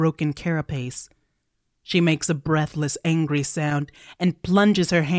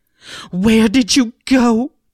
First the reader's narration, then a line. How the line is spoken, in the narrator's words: She cries